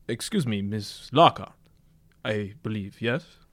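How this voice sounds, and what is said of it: Strange foreign accent. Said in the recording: “He speaks with a strange accent.”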